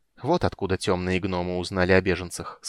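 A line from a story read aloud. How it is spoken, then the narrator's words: Plain. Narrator (Russian): сказал Рейслин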